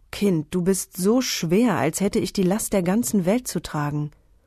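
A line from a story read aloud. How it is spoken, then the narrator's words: Exhausted groan. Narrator (German): Mit letzter Kraft am Ufer angelangt, stöhnte Ophirus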